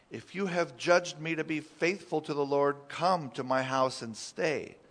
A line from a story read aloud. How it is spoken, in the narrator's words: she begged us, saying